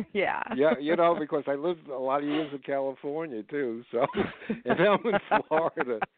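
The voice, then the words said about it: New Jersey / New York accent. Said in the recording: “I definitely detect the New Jersey, ... New York accent.”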